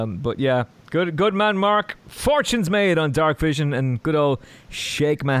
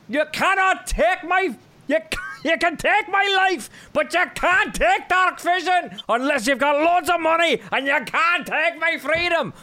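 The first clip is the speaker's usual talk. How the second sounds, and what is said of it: Poor put-on Scottish accent. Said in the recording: “It was terrible. ... That Scottish accent. I have no idea where the hell that one was going.”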